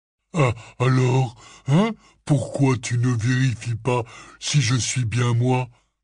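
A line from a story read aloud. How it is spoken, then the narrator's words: Panting while struggling. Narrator (French): demanda d'une voix haletante en continuant de se débattre pour essayer de franchir la porte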